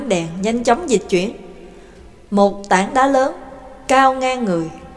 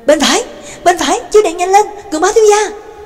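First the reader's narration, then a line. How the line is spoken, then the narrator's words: Urgent cry. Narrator (Vietnamese): Nhạc Dương đã lại kêu lên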